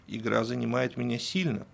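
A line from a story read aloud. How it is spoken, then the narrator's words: Plain. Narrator (Russian): сказал Герман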